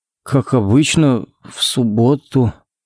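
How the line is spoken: Uncertain drawl. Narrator (Russian): неуверенно протянул Коннорс

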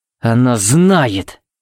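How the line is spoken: Growling. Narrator (Russian): буквально прорычал Тикс

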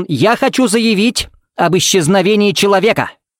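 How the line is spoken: Barking. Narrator (Russian): рявкнул Смит

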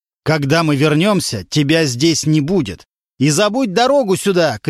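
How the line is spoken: Distant shouting from stairwell. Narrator (Russian): кричал он уже с лестничной клетки

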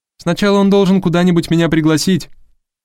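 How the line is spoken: Shouting through a door. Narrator (Russian): крикнула Харпер ему через дверь

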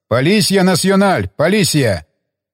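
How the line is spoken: Bold repeated shouting. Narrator (Russian): Кики, ни капли не стесняясь, крикнул пару раз

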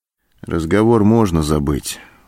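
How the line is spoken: Dejected, sinking voice. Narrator (Russian): упавшим голосом сказал Антон

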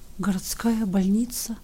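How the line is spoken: Quiet astonished whisper. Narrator (Russian): глубокое изумление, и лишь через минуты губы тихо прошептали

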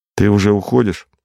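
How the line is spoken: Plain question. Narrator (Russian): спросил Валик

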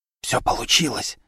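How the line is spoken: Whispered reply. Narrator (Russian): также шепотом ответила Вера

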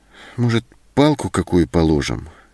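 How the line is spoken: Uncertain suggestion. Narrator (Russian): неуверенно предложила Зоська

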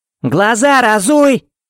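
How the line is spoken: Shout. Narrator (Russian): крикнула она

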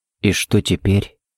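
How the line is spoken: Barely audible question. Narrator (Russian): едва слышно спросил Харри

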